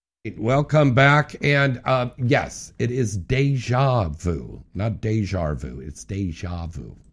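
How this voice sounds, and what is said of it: Speaks with an accent. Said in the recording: “Sorry, I have an accent.”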